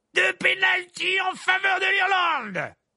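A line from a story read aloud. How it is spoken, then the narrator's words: Exclaimed. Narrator (French): s'écria Verpet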